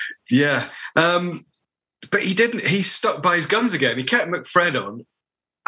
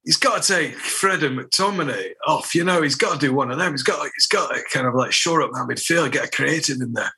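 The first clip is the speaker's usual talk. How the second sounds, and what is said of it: Put-on Scottish accent. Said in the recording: “I don't know why I'm doing it in a Scottish accent. ... That's a brilliantly Rio Ferdinand impression.”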